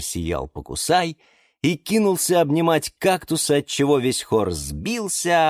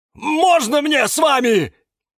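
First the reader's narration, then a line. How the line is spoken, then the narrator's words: Shout. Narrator (Russian): прокричал Кирилл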